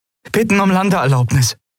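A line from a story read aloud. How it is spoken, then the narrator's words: Call. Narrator (German): rief Endriel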